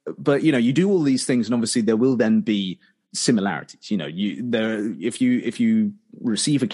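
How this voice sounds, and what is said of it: Usual voice. Nothing is said of it.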